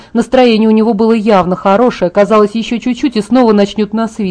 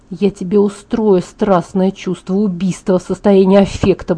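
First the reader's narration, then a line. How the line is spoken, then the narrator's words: Muttering under breath. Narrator (Russian): бормотала я себе под нос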